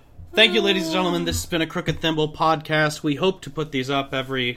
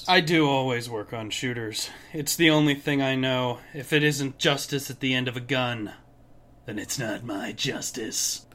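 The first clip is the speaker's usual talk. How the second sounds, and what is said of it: Put-on character voice. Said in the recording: “did that voice come from?”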